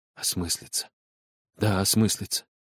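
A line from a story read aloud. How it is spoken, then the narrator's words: Sleepy whisper to self. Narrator (Russian): шептал про себя Павел Николаевич, засыпая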